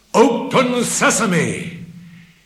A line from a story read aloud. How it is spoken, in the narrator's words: he called out in a firm voice